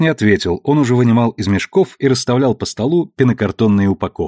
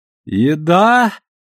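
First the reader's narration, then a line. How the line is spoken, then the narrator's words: Loud, sleepy, from another room. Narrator (Russian): Громко и сонно осведомился из гостиной Алекс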